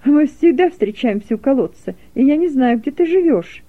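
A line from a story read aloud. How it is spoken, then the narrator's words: Laughing. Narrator (Russian): засмеялась Фернелла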